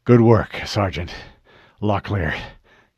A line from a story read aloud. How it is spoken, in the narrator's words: he panted